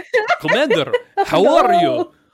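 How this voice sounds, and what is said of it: Fake Russian accent. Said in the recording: “They're putting on a fake Russian accent for the whole time”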